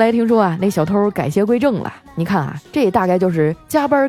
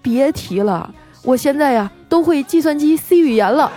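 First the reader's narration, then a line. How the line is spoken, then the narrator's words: Wry, bitter laugh. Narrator (Chinese): 小偷苦笑着说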